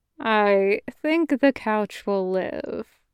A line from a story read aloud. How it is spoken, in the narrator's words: Harold said dryly